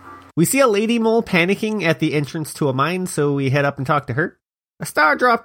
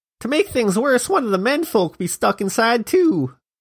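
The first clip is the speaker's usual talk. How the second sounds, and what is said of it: Put-on regional accent. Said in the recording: “That's an accent, right? People sound like that somewhere, probably.”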